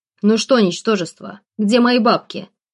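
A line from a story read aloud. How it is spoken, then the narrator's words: Deep booming bass, brute. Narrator (Russian): пробасил этот громила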